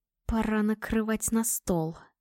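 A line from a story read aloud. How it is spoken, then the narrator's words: Icy whisper. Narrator (Russian): ледяным шепотом произнесла я, и в оглушительной тишине мой голос прозвучал как приговор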